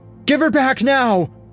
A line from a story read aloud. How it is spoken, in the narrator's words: a man screamed